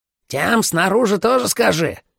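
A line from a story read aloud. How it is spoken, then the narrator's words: Shout from the hallway. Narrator (Russian): крикнул Майло из коридора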